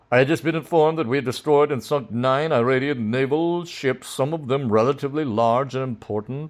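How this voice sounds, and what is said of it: Put-on Indian accent. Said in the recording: “I don't know why I'm giving an Indian accent.”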